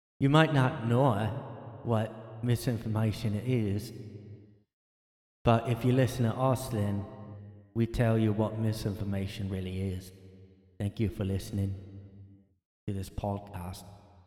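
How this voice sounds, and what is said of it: Bad mixed Australian-British accent. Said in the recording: “I'm doing like a mix of a bad Australian and a bad British accent.”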